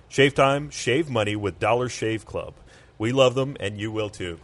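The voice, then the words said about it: Sing-song announcer voice. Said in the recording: “Did I use my announcer voice well enough there? ... I liked the sing song.”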